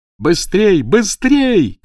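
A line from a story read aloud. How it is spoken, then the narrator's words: Shouted. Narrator (Russian): крикнул он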